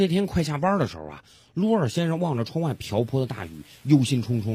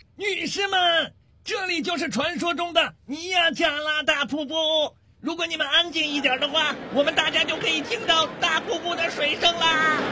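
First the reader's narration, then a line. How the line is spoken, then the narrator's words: Tour guide shouting loudly. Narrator (Chinese): 一个尽心尽力的导游扯着嗓门大喊着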